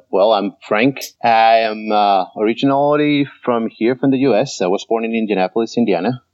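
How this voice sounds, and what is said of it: Mixed, hard-to-place accent. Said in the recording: “where's that accent from? ... my accent is completely messed up”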